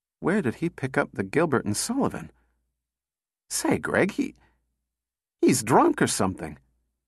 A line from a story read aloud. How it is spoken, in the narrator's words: said weakly